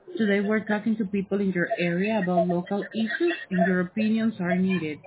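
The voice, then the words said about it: Hard-to-understand accent in English. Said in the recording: “I can't hardly understand your English accent.”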